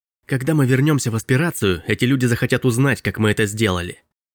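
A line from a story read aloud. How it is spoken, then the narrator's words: Hissed. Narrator (Russian): прошипел Робби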